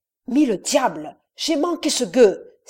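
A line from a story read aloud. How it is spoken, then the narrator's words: Exclaiming. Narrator (French): s'écria Evans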